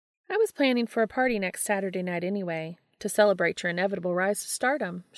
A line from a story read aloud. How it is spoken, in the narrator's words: she said